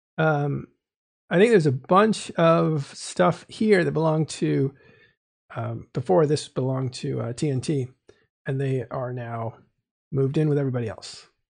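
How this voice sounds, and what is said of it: Hoarse, strained voice. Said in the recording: “I am losing my voice, which happens when I talk too much.”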